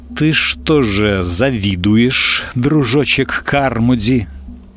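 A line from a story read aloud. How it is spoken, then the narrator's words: Slow. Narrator (Russian): медленно проговорил Чарли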